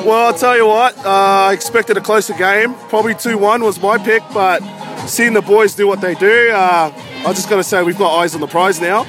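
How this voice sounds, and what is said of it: Australian accent. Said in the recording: “never heard that phrase in an Australian accent”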